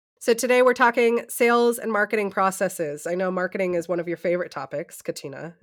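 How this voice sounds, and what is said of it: Voice affected by a cold. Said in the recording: “my voice gets me this week because I'm recovering from a cold. So I apologize for anyone listening that's picking up on that.”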